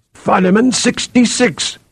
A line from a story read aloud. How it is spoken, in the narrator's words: Athor cried